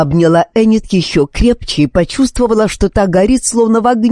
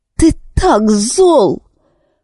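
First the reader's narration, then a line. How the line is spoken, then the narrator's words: Grief-roughened exclamation. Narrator (Russian): воскликнула она неожиданно погрубевшим от горя голосом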